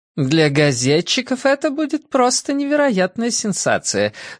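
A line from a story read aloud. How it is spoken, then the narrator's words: Cheerful, laughing. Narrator (Russian): сообщила миссис Бейкер и весело рассмеялась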